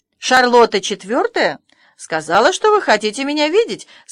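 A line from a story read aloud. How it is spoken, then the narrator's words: Pleasant voice. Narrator (Russian): сказала она приятным голосом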